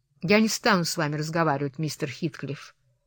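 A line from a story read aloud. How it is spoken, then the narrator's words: Plain. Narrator (Russian): ответила Кэтрин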